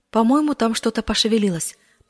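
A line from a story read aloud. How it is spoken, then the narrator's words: Whispering. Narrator (Russian): прошептала она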